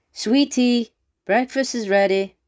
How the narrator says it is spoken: Red's Riding Hood's mother yells

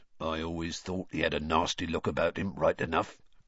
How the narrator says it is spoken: grunted a man at the bar

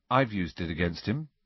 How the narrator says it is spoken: said Harry quietly

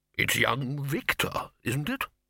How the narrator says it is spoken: he said

